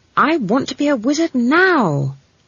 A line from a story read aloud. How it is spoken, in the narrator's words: said Esk firmly